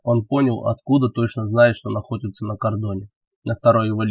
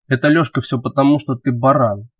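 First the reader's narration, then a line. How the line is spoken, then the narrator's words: Slightly angry. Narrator (Russian): немного зло произнес Роман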